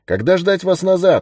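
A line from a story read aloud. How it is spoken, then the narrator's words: Shouted. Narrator (Russian): крикнул Уоррен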